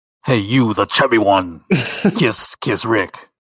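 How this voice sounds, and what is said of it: Authoritative alien warrior voice. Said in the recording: “do your impression of what it would sound like in Zentradi ... Wow, that was authoritative.”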